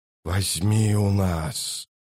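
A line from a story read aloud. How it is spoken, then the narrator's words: Rustling whispered chorus. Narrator (Russian): шелестящим хором прошептали тысячи голосов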